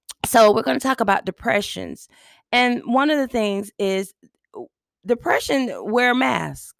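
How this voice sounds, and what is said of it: Deep, rough allergy-affected voice. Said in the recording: “I have allergies, and so that's why I sound like a whole man on here... just bear with my voice”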